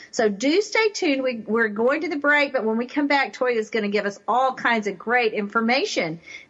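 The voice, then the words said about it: Texas twang accent. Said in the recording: “Truth with a Texas twang spoken here.”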